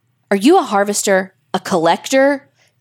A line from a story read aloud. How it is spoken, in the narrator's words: Daniel bravely called out, his heart pounding like a jackhammer